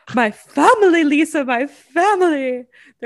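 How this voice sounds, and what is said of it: Imitates a woman's British-accented voice. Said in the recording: “she says family, my family ... She literally like has a British accent.”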